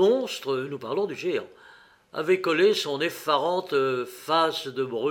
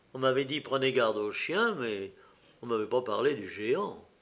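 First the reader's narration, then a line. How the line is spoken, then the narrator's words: Muttered through teeth. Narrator (French): Et il murmura entre ses dents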